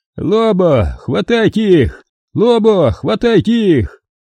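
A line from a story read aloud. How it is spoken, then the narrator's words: Yelling over a din. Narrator (Russian): перекрикивая зарождающийся гвалт террористической мелюзги, вопил Тайрон Тен Эйк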